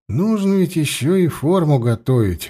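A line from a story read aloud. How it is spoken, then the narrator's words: Sighing. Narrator (Russian): вздохнул он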